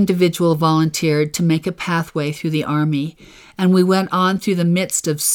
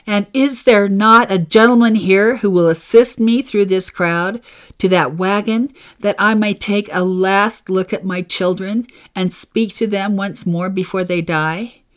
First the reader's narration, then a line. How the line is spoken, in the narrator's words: I cried